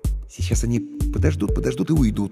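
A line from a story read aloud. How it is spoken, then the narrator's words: Uncertain. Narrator (Russian): неуверенно предположил я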